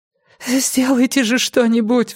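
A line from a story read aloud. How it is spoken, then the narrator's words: Sobbing. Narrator (Russian): всхлипнула София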